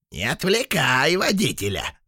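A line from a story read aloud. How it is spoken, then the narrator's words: Squeaky voices. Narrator (Russian): запищали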